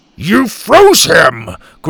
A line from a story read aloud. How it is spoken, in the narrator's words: Grandpa growled